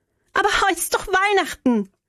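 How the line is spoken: Calling after. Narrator (German): rief ich ihm nach

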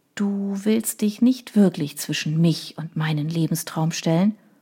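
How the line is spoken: Soft, confiding question. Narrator (German): als wolle sie ein Geheimnis weitergeben und fragte sanft

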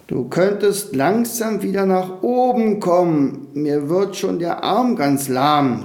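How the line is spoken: Called out. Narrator (German): rief Tommy am unteren Rand der Wolke seinem Enkel zu

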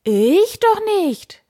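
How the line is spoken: Knight's exclamation. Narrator (German): rief der Ritter

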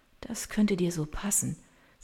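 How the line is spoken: Quiet, tearful. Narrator (German): sagt sie mit leiser Stimme und spürt, wie ihr eine einzelne Träne die Wange herunterrollt

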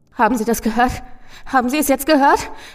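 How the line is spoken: Gasping lamenting man. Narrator (German): keuchte der Mann und es klang wie ein Wehklagen

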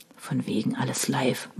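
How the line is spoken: Murmur. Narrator (German): murmelte Henning

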